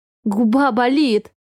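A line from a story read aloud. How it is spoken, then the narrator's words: Giggling. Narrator (Russian): хихикает она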